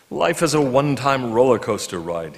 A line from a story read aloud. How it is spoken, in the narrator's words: he said